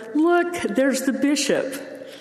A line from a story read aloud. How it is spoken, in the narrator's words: The girls excitedly said